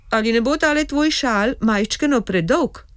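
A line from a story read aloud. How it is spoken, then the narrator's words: Calling out. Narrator (Slovenian): zaklical Repli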